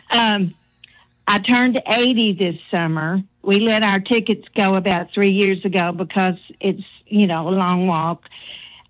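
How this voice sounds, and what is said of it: Corbin regional accent. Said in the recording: “my Corbin accent ... I love your Corbin accent”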